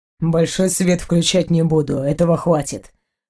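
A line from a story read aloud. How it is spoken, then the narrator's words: Husband's snort. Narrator (Russian): супруг фыркнул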